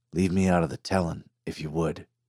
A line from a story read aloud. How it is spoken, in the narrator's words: Virgil quietly asked Miguel